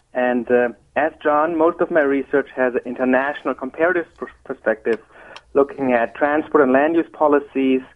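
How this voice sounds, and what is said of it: German accent in English. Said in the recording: “as my accent may tell you, I'm originally from Germany and not from Virginia”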